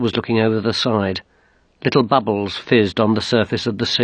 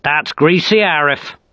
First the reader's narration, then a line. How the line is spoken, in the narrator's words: snapped Solid